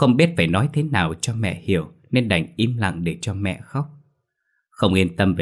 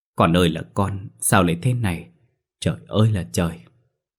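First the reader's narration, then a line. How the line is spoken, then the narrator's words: Choked tearful old woman. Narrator (Vietnamese): Bà nghẹn ngào nói trong nước mắt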